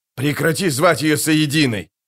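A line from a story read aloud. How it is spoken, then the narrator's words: Shouted. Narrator (Russian): крикнул Джамис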